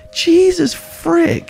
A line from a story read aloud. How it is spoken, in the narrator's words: he exclaimed